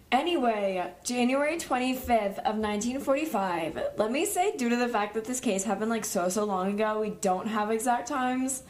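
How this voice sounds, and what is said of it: Raspy, worn-out voice. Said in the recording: “my voice is getting progressively worse ... Your voice is, like, killing me. ... it's so bad ... it's raspy”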